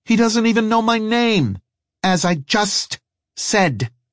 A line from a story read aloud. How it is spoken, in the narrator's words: she snapped